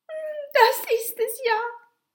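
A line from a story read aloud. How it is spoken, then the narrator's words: Child whimpering. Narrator (German): wimmerte das Kind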